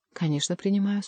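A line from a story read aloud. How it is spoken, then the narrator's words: Calm. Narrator (Russian): спокойно ответил Келюс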